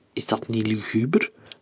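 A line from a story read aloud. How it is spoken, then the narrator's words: Plain. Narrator (Dutch): vroeg de radioloog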